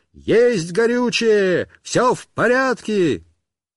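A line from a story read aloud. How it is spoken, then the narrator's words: Shouting. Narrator (Russian): кричал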